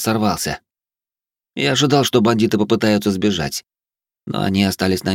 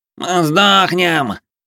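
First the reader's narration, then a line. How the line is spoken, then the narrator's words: Strained, shaking voice. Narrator (Russian): рожащим голосом произнес Плешивый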